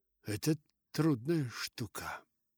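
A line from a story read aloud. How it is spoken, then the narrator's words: Cautious mutter. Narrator (Russian): пробормотал мистер Верлок, чувствуя, что только это ему и безопасно сказать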